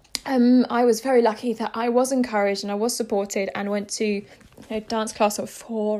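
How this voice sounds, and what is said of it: Posh-sounding English accent. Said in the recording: “I sound really posh”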